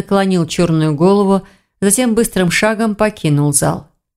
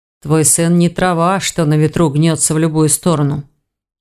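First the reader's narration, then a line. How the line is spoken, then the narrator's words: Muffled, hollow. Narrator (Russian): глухо отозвался Рейн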